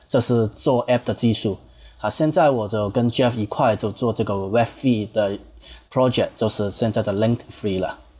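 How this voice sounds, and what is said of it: Hong Kong-accented Mandarin. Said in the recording (Chinese): “这个口音一听就知道啊，这是这个港式中文，很有这港式口音”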